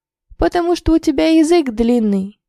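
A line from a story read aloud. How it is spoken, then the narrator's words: Laughing. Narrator (Russian): рассмеялся Илья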